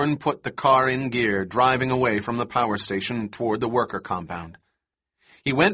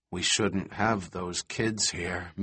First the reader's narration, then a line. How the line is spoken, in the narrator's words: Malcolm said gloomily